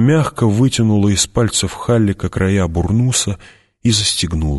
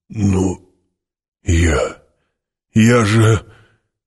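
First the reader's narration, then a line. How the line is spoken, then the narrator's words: Broken, forced out. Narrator (Russian): Гурни, совершенно сломленный, выдавил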